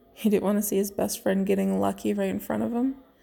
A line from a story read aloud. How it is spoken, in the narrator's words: Bucky chuckled back